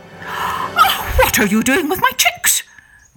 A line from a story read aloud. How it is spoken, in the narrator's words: cried Mamma Ostrich